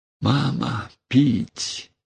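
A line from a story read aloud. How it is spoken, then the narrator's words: Very quiet delirious plea. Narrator (Russian): Тихо, очень тихо, в беспамятстве просила Лебедева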